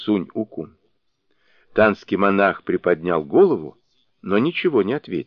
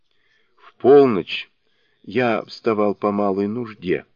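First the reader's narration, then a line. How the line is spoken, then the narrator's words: Weak voice, monk. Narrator (Russian): объяснил слабым голосом танский монах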